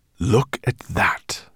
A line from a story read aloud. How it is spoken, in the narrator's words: he breathed